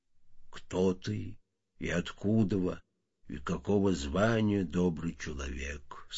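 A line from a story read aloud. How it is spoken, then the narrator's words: Neutral, neither warm nor stern. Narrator (Russian): сказал сотник ни ласково, ни сурово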